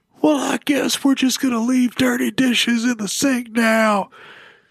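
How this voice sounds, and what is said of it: Tough-guy voice imitating his wife. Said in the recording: “When my wife, like I'm doing an impression of my wife, it's always Stone Cold Steve Austin.”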